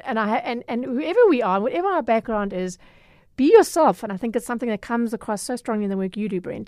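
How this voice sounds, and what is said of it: Durban South African accent. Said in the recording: “now we've just got to do something about your Durban accent ... however my accent sounds to a particular segment of the population, it's mine”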